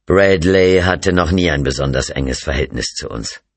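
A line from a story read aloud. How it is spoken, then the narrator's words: Plain. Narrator (German): sagte er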